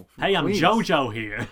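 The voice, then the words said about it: Exaggerated New York accent. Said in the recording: “ludicrous New York accents”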